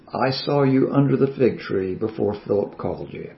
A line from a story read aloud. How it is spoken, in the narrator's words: softly says